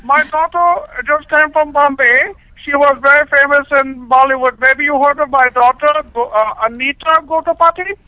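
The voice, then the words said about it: Unconvincing put-on foreign accent. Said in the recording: “I do not believe that accent ... This is not a real accent.”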